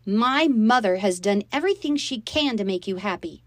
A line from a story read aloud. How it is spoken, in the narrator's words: I shouted